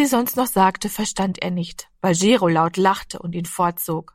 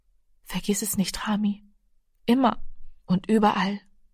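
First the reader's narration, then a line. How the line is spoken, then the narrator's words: Softly. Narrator (German): die Mutter sagte leise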